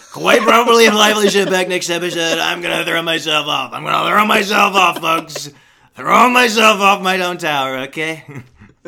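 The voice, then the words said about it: Imitates another person's voice. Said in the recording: “Gets worse every time, my Trump impression”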